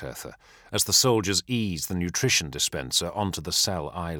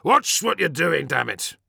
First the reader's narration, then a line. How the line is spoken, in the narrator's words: he snapped, directing his anger outwards